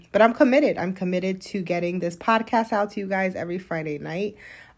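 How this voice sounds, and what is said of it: Tired, slightly crackling voice. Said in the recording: “my voice kind of crackling a little bit, I am a little tired ... if I sound a little different”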